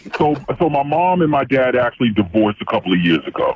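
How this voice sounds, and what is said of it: Electronically disguised voice. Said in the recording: “the voice changer is on”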